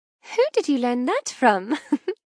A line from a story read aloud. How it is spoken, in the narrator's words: I chuckle